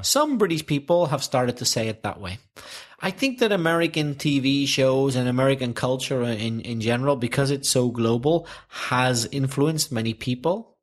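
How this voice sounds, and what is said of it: Belfast accent. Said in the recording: “your Belfast accent”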